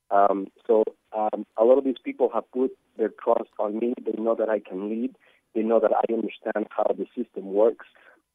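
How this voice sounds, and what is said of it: Mexican Spanish accent. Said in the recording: “I'm from Mexico City, as you can hear my accent.”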